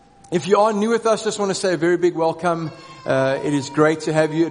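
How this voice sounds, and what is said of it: Croaky, strained voice. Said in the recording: “My voice is a little bit croaky... if I do sound like I'm struggling”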